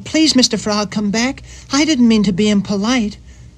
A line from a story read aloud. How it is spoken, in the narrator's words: cried Tubby